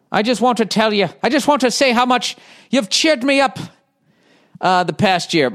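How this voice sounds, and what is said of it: Bad put-on Irish accent. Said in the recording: “I'm an Irish lady from Dublin ... As I'm doing a fucking bad accent.”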